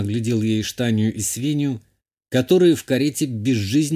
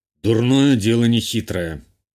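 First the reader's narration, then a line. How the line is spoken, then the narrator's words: Gloomy declaration. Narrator (Russian): мрачно заявил Журбер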